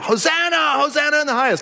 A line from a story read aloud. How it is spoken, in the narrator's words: They're shouting out